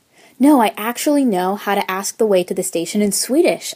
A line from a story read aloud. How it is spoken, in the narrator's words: exclaimed